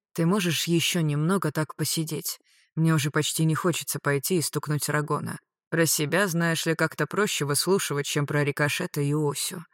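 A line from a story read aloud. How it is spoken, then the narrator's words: Quiet. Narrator (Russian): тихо сказал что-то вроде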